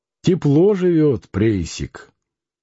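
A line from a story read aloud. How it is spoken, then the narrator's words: Grumbled. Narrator (Russian): Кутузов проворчал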